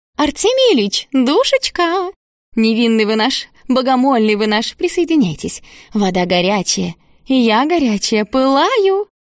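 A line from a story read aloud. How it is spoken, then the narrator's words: Tender, inviting, bell-like laugh. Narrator (Russian): Позвала Клинопопова Евдокия и снова засмеялась нежно и зазывно, как серебряный бирманский колокольчик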